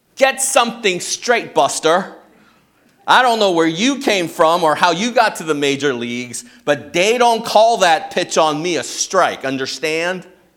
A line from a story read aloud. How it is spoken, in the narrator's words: Howard yelled